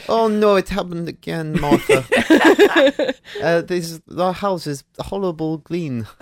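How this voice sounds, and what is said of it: Put-on Liechtenstein accent. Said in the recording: “This is my Liechtenstein accent. ... It's good Liechtenstein accent. ... I'm half Eastern European. ... it is quite specific, a Liechtenstein accent. ... Specific impression.”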